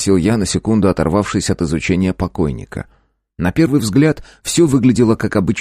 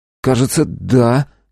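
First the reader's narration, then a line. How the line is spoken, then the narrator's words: Uncertain voice. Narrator (Russian): неуверенно произнес Леонов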